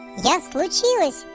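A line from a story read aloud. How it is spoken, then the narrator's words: Thin squeal. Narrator (Russian): тоненько взвизгивает оно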